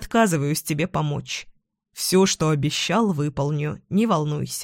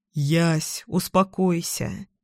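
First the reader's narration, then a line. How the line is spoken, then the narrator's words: Tired sigh. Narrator (Russian): Устало вздыхаю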